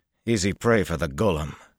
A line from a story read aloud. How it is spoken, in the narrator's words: he said bitterly